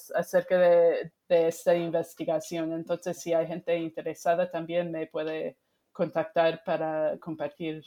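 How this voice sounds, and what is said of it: Non-native Spanish accent. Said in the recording (Spanish): “Espero que mi español a medias ha, sido entendible ... muy bienvenido tu acento”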